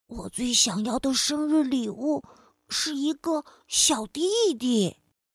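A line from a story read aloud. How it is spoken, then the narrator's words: Quiet, soft. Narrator (Chinese): 欧丽却小声的告诉妈妈说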